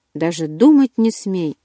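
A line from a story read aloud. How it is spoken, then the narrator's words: Shouting. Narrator (Russian): закричал Эдвард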